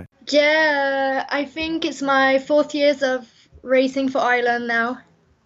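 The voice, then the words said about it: Slight French accent. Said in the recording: “We can hear from your accent that you're probably not from Tipperary ... my dad is French, that's why I have a little French accent”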